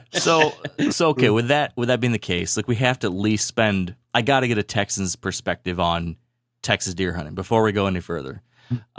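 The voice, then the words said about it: Michigan accent. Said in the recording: “my stupid Michigan accent”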